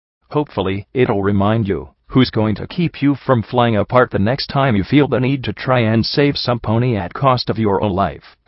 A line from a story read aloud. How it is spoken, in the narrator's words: Glory said